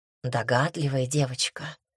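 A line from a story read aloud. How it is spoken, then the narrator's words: Spine-chilling purr. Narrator (Russian): пробирающим до мурашек голосом промурлыкал искуситель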